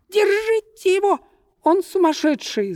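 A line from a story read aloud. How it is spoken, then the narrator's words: Shrieking woman. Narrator (Russian): завизжала толстая дама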